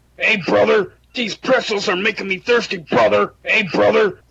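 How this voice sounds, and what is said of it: Imitation of a pro wrestler's voice. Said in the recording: “That was a good impression. ... that was really good, man. So obviously, that was Hulk Hogan.”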